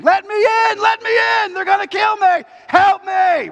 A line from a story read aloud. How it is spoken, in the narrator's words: terrified and screaming